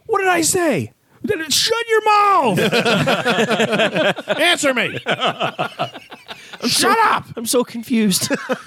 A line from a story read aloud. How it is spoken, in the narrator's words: your parents would yell at you